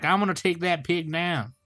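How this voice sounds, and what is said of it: Imitated southern accent. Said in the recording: “he's got like the southern accent.”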